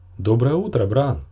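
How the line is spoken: Cheerful exclamation. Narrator (Russian): весело воскликнул Клей

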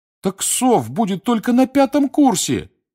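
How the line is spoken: Pleading. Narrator (Russian): взмолился Дин Томас

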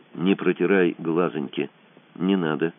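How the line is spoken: Quiet advice. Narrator (Russian): тихо посоветовал Кацуба

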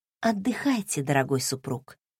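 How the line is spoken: Whisper in silence. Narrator (Russian): прошептала в тишине

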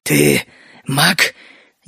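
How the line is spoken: Barely audible rasp. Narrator (Russian): еле слышно прохрипел шершень

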